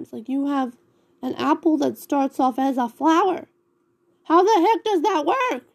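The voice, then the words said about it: Loud, yelling voice. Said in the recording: “I'm yelling into your earphones”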